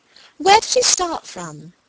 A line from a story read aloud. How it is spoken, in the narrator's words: cried Margaret